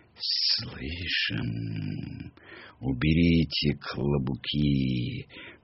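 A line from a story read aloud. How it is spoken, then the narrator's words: Quiet voices. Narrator (Russian): Произнесли тихо голоса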